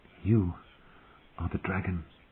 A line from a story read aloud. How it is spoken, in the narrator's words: Danny whispered to him